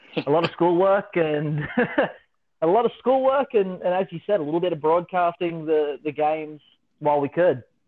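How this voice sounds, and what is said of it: Australian accent. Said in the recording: “can't pick up that accent, that is ... from Australia”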